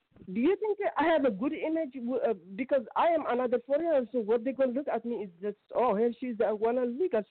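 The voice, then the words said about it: Foreign accent. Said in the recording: “my foreigner accent”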